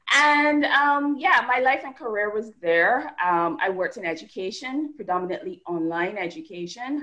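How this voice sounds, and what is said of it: Barbadian Caribbean accent. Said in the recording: “as you can tell from my accent, I'm not originally from the US. I'm from Barbados”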